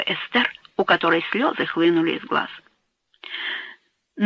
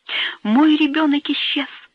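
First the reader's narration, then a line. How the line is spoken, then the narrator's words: Cried out. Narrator (Russian): вскрикнула она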